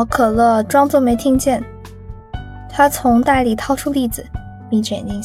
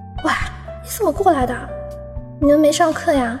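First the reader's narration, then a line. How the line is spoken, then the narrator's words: Shy quiet question. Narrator (Chinese): 红着脸 小声问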